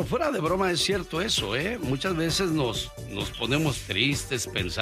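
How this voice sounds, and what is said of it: Usual voice. Nothing is said of it.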